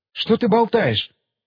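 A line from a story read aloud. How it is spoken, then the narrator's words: Exclaimed. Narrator (Russian): воскликнула Бекки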